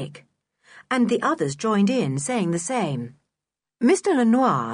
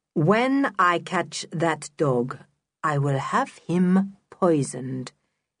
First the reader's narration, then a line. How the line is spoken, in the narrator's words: he said, very slowly and clearly